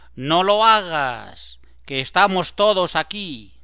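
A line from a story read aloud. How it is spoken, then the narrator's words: Shouting at full strength. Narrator (Spanish): Pablo grita con todas sus fuerzas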